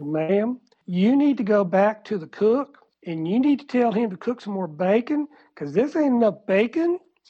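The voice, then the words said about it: Put-on South Georgia accent. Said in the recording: “I went in my South Georgia accent.”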